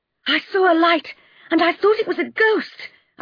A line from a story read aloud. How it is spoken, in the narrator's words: I cried